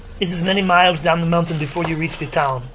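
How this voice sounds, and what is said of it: Put-on accent drifting toward Arnold Schwarzenegger. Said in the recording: “I want to continue to talk in that accent ... I'm starting to sound like Arnold Schwarzenegger ... My accent's drifting. It's like I can't keep it.”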